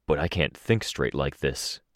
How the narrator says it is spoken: Capricorn spoke, his voice quiet

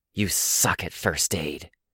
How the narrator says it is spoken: Chris hissed

